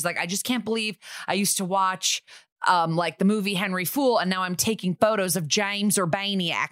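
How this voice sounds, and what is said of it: Thick put-on Alabama accent. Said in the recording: “very thick Alabama accent”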